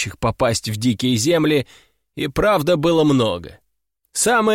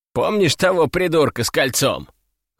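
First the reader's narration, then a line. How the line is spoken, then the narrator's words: Snorting. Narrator (Russian): хмыкнул Иван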